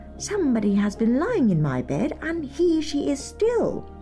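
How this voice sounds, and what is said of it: Tiny little character voice. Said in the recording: “in his little wee voice.”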